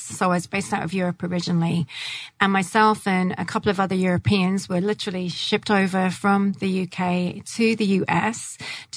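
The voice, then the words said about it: English accent. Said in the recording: “hence the English accent.”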